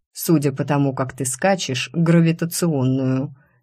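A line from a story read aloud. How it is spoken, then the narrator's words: Sarcastic snort. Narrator (Russian): саркастично хмыкнул Семен Семенович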